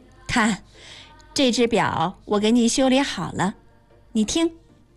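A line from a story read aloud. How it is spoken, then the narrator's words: Laughing. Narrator (Chinese): 妈笑着说道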